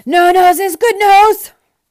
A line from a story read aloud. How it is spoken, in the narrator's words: thundered the den once again as he collapsed into another fit of hysterics